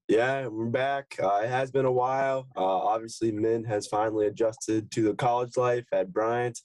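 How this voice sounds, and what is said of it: Scratchy, strained voice. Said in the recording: “my voice is a little bit scratchy, because I was definitely screaming and yelling”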